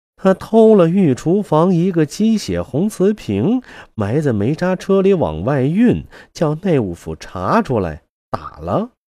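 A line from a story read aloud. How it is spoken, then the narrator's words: Laughing. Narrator (Chinese): 秦妹妹笑道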